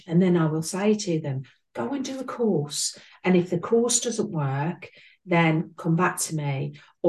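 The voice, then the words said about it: English Midlands accent. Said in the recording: “as you can tell by my accent, I'm between Birmingham and East Midlands”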